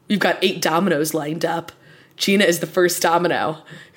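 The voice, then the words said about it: Imitates another person's voice. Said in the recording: “says to Chris, again, I'm going to do an impression.”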